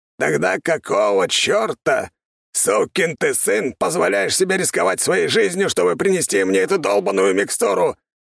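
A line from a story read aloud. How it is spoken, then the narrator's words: Hoarse rasp. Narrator (Russian): прохрипел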